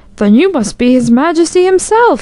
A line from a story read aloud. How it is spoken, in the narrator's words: he gasped